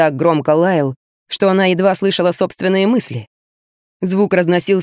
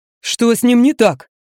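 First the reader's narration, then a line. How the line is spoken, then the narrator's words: Shouting neighbor. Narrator (Russian): прокричал сосед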